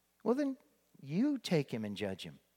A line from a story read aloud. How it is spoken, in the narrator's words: Pilate said